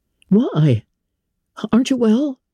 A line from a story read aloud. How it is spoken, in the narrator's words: his son exclaimed